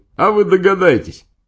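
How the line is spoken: Cheerful, laughing. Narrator (Russian): весело хохотал и говорил

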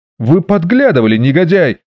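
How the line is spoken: Furious shout. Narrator (Russian): закричал де Мондерик

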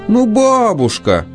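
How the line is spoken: Feigned moan. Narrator (Russian): опять наигранно застонала Фани

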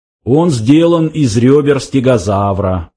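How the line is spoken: Explaining. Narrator (Russian): пояснил Сларти Бартфаст

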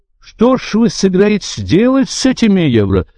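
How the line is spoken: Exclaimed. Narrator (Russian): воскликнул один из делегатов

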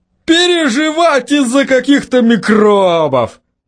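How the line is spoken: Laughing loudly. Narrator (Russian): хохотал Тим

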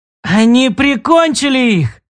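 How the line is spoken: Young child shouting. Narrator (Russian): закричал мальчонка лет 7

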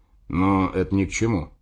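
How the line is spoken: Grumbling. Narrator (Russian): проворчал он

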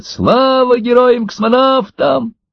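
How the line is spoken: Children shouting. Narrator (Russian): Дети кричали вслед

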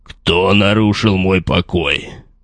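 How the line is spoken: Loud growling voice. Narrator (Russian): прозвучал громкий рычащий голос

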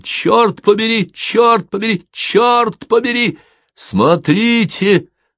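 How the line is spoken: Admiral shouting. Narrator (Russian): закричал адмирал

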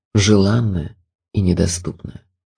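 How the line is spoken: Sad. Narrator (Russian): проговорил печально

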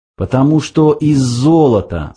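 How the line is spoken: Plain. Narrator (Russian): сказал Форд

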